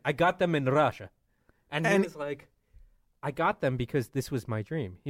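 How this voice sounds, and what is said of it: Thick Russian accent. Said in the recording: “I got the thickest Russian accent.”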